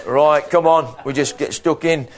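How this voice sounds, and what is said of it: Put-on northern English accent. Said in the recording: “Maybe you're a bit more northern up here ... Sorry about that accent”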